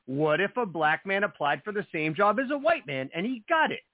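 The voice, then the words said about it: Tucker Carlson impression. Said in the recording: “my Tucker Carlson impression”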